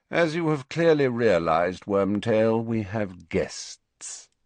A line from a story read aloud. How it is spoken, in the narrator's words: said Snape lazily